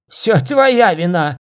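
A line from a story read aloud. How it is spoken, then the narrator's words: Hoarse shout. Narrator (Russian): закричал он хрипло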